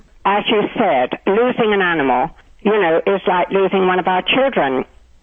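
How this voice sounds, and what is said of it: Speaks with a noticeable accent. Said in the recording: “I just love your accent ... I've been here 20 years and I haven't lost it”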